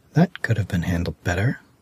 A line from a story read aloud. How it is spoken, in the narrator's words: She whispered